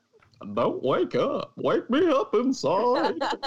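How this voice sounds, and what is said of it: Goofy cartoon voice impression. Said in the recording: “That was a good Goofy impression.”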